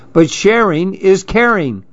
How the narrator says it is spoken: cried Clark

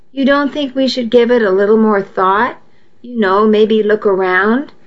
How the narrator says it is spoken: I asked

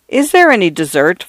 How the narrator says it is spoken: Father Furman asked coldly

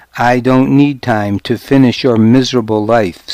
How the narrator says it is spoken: Sanute said

